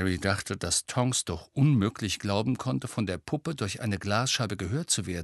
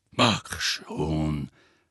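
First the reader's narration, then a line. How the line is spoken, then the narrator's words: Growling. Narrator (German): knurrte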